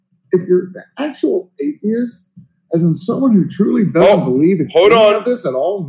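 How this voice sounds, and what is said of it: American accent. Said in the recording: “judging by this guy's accent, he's an American”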